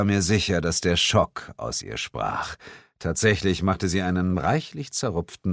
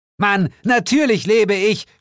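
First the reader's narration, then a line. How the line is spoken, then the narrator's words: Shouting. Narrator (German): schrie sie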